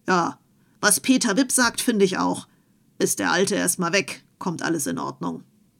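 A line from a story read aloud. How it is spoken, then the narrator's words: Calling out. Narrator (German): rief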